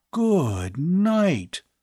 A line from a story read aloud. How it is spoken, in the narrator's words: Bud gasped weakly